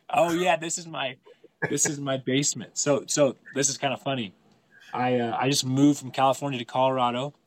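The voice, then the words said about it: Sick, strained voice. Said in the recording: “My voice is actually not doing so hot. I've been sick for the last few days here.”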